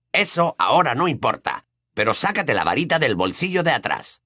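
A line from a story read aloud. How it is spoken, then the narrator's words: Growled. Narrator (Spanish): gruñó Ojo Loco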